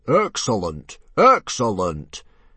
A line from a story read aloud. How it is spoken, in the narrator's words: Stoic the Vast boomed